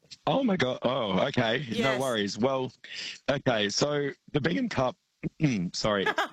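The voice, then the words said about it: Strained, failing voice. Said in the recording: “my voice is a bit... I'm actually just going to try to get my voice to work”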